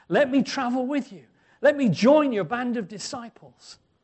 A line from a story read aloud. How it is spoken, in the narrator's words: he pleads with Jesus